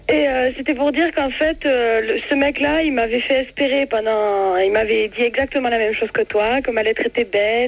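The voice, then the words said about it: Strong singsong regional French accent. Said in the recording (French): “Oh, quel accent... Oh, mais c'est magnifique... on entend chanter”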